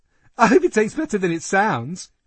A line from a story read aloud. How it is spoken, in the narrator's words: George giggled, visibly swelling with pride